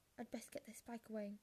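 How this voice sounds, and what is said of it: Muffled, choked-up voice as Hagrid. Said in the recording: “said Hagrid in a very muffled voice.”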